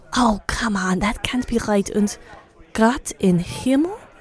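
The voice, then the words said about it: Put-on German accent. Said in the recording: “Why am I speaking in the German accent?”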